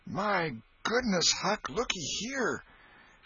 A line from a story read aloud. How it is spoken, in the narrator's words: Tom exclaimed